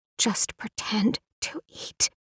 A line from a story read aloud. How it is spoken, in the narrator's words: Anna whispered